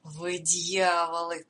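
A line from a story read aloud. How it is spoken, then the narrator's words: Affectionate, gentle. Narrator (Russian): произнес он ласково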